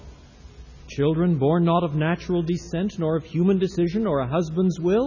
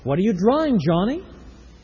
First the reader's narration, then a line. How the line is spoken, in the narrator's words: she asks him